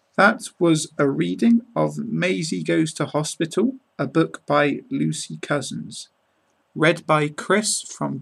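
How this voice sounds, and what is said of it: British English accent. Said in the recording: “British accent”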